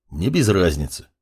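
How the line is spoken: Grumbled. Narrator (Russian): буркнул маг

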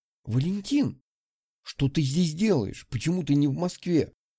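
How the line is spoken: Exclamation. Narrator (Russian): воскликнула Анна

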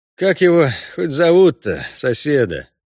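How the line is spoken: Sighed, resigned. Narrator (Russian): вздохнул Геральт, готовый к любым невзгодам мероприятия на 1000 душ

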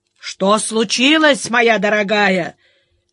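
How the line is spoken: Booming bass over phone. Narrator (Russian): прогудел в трубке бас Котофеича

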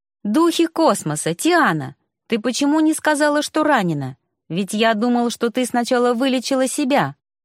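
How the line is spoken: Indignant shout. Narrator (Russian): Возмущенно закричал Ликс

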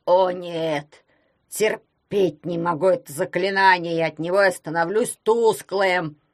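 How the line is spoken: Creaky ring's voice. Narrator (Russian): проскрипел перстень Феофила Гроттера

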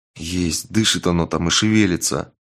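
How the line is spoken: Quiet objection, foundling. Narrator (Russian): тихо возразил найденыш

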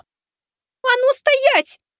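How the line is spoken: Girl's shrill shriek. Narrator (Russian): взвизгнула девушка

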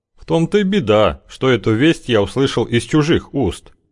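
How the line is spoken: Sad. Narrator (Russian): произнес Плешаков печально

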